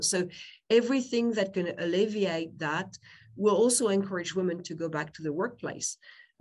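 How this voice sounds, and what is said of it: French accent. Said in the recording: “I'm French, you can tell by my name, probably by my accent. I can't hide that.”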